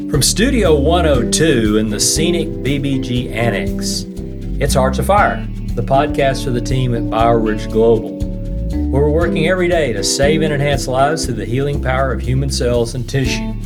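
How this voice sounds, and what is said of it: Nasal East Texas twang. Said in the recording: “nasal East Texas twang”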